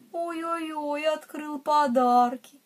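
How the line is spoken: Sympathetic sigh. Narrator (Russian): Мама Му сочувственно вздохнула

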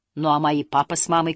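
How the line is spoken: Shout. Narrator (Russian): крикнул Муми-тролль

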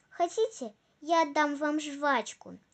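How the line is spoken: Plain question. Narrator (Russian): спросила она

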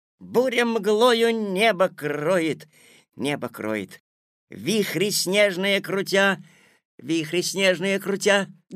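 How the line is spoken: Loud repeating. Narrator (Russian): громко повторял Миша

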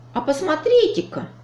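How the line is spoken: Exclamation. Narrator (Russian): воскликнул Чуб

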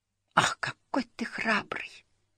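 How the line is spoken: Whisper. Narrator (Russian): прошептала Фрёкин Снорк

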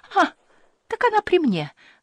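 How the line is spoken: Exclaiming. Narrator (Russian): воскликнула она

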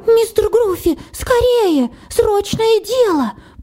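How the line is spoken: Squeaked. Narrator (Russian): пропищал Харви

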